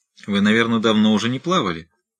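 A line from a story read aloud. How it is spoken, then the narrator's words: Cold remark. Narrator (Russian): холодно заметил Уайлдер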